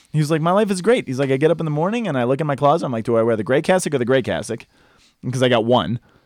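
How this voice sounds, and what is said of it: New York accent. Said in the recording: “He had the New York accent. He was from Long Island.”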